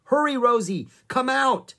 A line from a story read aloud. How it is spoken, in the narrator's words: yelled Annie